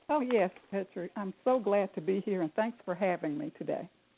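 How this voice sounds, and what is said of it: Southern US accent. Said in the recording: “I'm detecting an accent. ... Yes, I am from the South. ... I'm from Jackson, Mississippi.”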